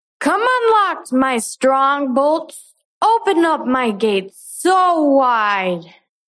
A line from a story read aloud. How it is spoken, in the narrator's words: she shouted out